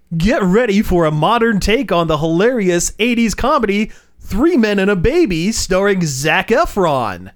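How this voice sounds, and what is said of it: Comic announcer voice. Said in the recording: “putting on my hilarious announcer voice”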